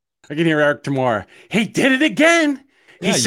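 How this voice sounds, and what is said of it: Usual voice. Nothing is said of it.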